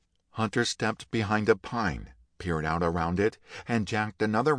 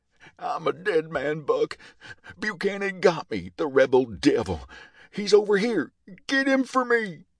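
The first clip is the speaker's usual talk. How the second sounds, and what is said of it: Screeching, pained character voice. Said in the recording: “yelled in a screeching voice filled with pain”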